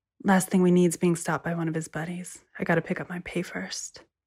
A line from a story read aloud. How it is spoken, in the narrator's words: she said quietly